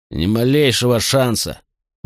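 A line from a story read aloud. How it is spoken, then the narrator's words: Sullen grumble. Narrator (Russian): угрюмо проворчал Мител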